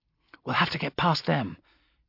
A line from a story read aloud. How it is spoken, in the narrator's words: she whispered